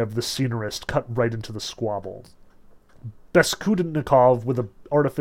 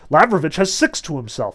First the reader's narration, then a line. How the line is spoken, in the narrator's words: Deniskin cried out